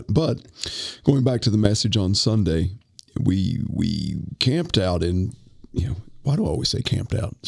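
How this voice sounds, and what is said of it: Congested voice with throat clearing. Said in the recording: “apologize for my voice... this is good old-fashioned sinus infection hitting hard. So if you hear me clearing my throat quite a bit today”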